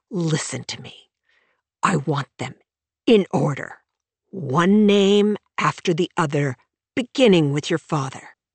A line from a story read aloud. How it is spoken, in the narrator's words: hissed